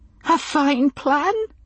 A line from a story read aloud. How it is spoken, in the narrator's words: she said, and sobbed once